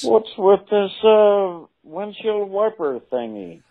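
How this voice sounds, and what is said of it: Imitates another person's voice. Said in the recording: “That's got to be Jerry Seinfeld... this impression's too good... Do your voice again”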